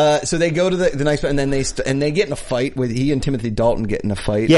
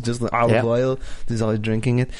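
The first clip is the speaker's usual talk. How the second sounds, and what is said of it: Put-on German accent, Arnold-like. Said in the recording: “I don't know why I went into a German accent... I was like, Arnold.”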